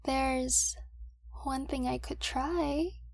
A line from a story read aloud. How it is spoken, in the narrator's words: she says hesitantly